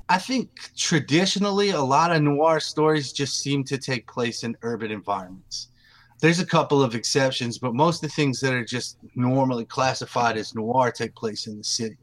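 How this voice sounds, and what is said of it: Southern US accent, East Texas. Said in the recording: “I don't know if anybody can tell from my voice, I am Southern ... I'm from East Texas”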